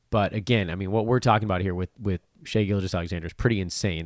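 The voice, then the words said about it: Strained, worn-out voice. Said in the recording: “I'm cooked. My voice is cooked again. I'll kind of try to get up enough strength ... despite the sound quality right now.”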